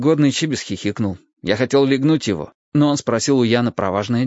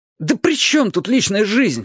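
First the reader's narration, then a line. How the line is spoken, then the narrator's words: Wailing even louder. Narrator (Russian): взвыл я еще громче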